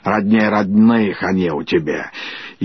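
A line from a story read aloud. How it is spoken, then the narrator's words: Grumbling. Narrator (Russian): Давняя подруга ее Хрунычиха, осуждая или радуясь, ворчала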